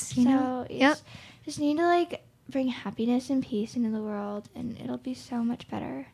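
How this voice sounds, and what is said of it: Dreamy hippie voice. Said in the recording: “that was my hippie impression”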